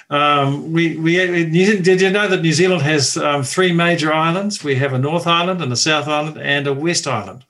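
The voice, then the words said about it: New Zealand accent. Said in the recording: “for the people who haven't picked up your accent ... I'm in New Zealand.”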